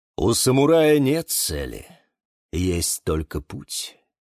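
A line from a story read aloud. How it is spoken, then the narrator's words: Thoughtful sigh. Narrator (Russian): задумчиво вздохнул Бонсай Покусай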